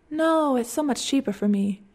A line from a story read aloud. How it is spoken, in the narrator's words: she said